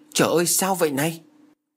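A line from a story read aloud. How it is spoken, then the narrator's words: Startled exclamation. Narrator (Vietnamese): Thừa phát lại giật mình nhìn tờ án lệnh mà chính ông giữ từ Sài Gòn xuống đây, xem và kêu lên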